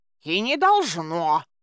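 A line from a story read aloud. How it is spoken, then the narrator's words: Grumbling mutter. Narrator (Russian): пробурчал Баюн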